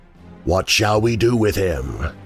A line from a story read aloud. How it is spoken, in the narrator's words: it growled to the others